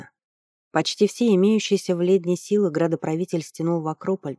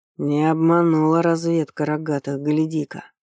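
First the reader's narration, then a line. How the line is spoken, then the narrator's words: Hoarse whisper. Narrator (Russian): Хрипло шепнул Статит, едва удержавшийся от того, чтобы сплюнуть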